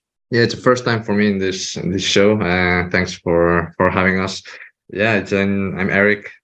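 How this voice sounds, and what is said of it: Spanish accent. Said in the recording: “Spanish, probably guessed by the accent”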